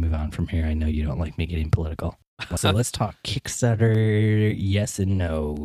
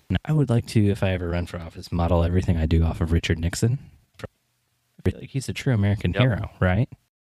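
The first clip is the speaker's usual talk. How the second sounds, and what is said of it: Sarcastic delivery. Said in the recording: “I'll stop being sarcastic”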